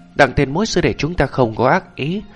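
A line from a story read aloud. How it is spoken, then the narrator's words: Loud shout. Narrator (Vietnamese): Lý Thất Xạ Triệu Thu Thực hét to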